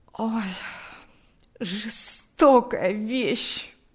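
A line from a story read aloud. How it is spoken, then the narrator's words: Moaning. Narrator (Russian): стонал он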